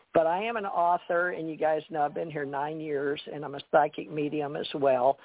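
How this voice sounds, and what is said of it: Southern US accent. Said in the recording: “I have developed around my family a Southern accent”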